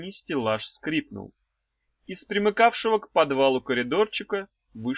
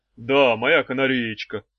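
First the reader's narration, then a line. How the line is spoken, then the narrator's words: Muffled deep male bass. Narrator (Russian): глухим басом отвечал мужчина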